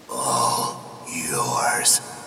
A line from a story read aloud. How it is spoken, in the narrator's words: god whispered in his ear